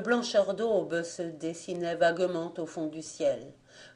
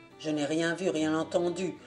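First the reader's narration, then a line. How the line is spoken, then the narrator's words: Gruff soldier's growl. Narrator (French): grogna le soudard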